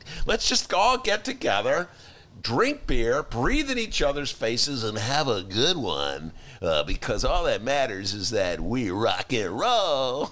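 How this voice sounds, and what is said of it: Imitation of a party bro voice. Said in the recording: “That's my bro imitation. ... That was good.”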